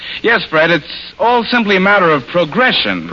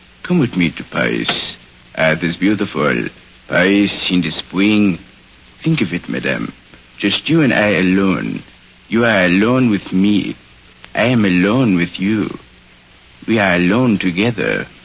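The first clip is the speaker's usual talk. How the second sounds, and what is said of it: Good impression with French accent. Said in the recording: “That certainly was a swell impersonation ... his French accent”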